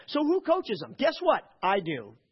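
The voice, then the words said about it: Rising, upset voice. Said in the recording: “Can you tell my voice is rising here? I'm getting a little upset.”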